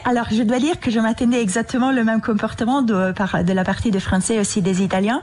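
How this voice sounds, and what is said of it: Italian accent speaking French. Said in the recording (French): “votre accent trahissent vos origines transalpines”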